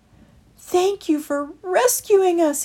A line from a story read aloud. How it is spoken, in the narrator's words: he cried